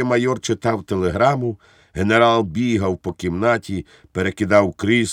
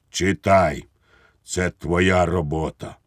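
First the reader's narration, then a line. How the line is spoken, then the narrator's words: Tragic voice. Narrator (Ukrainian): сказав трагічним голосом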